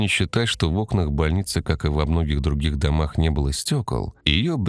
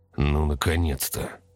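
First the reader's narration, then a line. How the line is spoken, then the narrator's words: Relieved exhale. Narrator (Russian): с облегчением выдохнул Сергей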